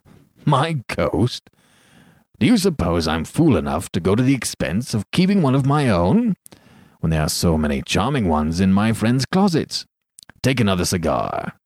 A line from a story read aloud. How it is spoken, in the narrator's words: he said, with a laugh